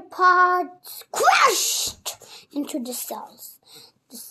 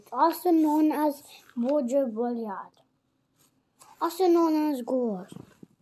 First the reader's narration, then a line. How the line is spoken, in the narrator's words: muttered